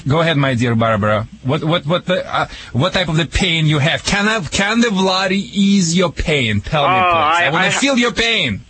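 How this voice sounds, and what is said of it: Russian-accented English. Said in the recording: “back in Russia... I call it Rushlish. Sorry, people, for my accent... Americans think that's the Michigan accent”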